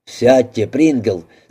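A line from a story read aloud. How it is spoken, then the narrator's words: Angry curt remark. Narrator (Russian): сердито бросил мистер Огден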